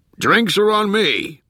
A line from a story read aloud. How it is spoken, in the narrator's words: he yelled